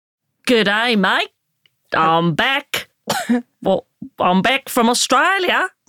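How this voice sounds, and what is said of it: Put-on Australian accent. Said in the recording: “I've been working on the accent all the way home. ... This is my Australian accent. ... Do not put it on the CV.”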